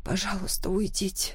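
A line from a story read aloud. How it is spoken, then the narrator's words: Quiet whisper. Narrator (Russian): тихо прошептала я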